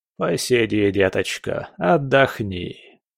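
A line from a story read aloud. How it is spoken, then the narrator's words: Creaky, unpleasant voice. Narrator (Russian): проскрипел он тогда своим противным голосом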